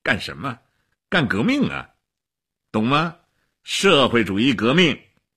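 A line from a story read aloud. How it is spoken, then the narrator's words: Laughing. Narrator (Chinese): 齐比索夫笑起来了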